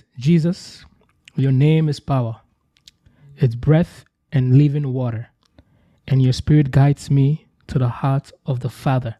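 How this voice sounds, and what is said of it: African accent, Morgan Freeman-like tone. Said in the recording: “your tone and your accent, bro. It sounds Gucci. It's like the African Morgan Freeman”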